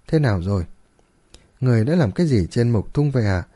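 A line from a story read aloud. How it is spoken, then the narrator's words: Gentle amused question. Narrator (Vietnamese): Cười dài, Dược lão nhẹ nhàng hỏi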